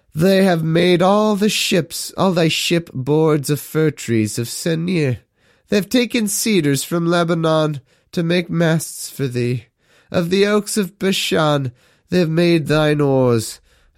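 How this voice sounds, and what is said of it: Deliberately bad put-on accent. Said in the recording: “I'm doing like a pseudo-terrible accent for no reason ... my perfect lamentation character voice”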